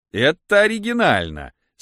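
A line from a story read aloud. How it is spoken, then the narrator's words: Delighted laughter. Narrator (Russian): сказал Андрей Ефимович, смеясь от удовольствия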